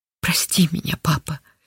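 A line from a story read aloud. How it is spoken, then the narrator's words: Whispering. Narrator (Russian): шептала Линда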